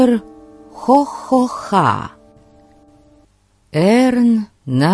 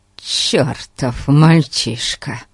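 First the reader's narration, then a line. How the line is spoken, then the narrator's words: Male grumbling. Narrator (Russian): ворчал он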